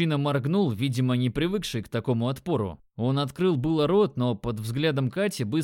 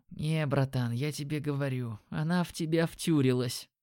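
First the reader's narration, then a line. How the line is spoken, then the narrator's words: Whisper. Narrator (Russian): послышался шепот Димона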